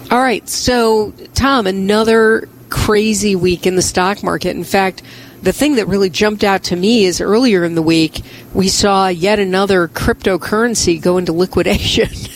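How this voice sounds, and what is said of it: Slightly hoarse voice. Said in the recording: “you can hear that I'm a little bit hoarse today”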